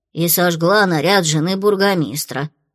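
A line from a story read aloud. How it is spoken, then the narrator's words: Grumbling. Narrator (Russian): пробурчала Фло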